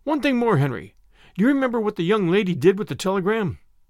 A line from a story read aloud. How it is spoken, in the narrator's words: Henry gasped and spoke